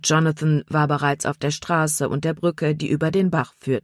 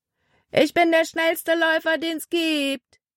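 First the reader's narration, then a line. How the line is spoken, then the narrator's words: Calling out. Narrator (German): rief er ihnen zu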